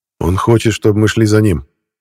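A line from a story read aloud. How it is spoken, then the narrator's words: Said loudly. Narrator (Russian): громко сказал Саша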